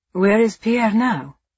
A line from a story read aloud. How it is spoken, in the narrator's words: Angelo asked